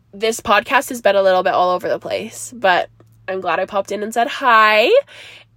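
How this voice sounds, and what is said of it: Stuffy, congested voice. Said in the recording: “I sound so stuffy ... I'm stuffy. I sound kind of gross.”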